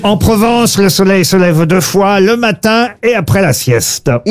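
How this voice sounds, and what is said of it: Slight put-on southern French accent. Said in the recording (French): “Vous avez utilisé un petit accent ... puisque ça parle du midi en Provence”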